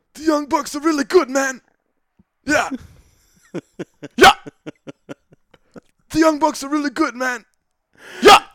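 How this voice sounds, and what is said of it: Poor raspy impression of another voice. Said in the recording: “terrible impression ... your little raspy cigar smoke voice ... it's a terrible impression”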